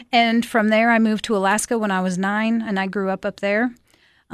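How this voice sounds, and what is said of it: South Dakota accent. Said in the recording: “I was born in South Dakota. And so that's where the funny accent comes from.”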